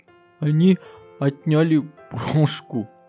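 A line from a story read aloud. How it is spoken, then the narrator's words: Whimpering. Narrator (Russian): захныкала Динки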